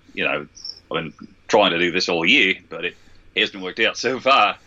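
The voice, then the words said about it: Attempted Australian accent. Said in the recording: “I suppose I could do sort of Australian ... and that's sort of an Australian. I don't know.”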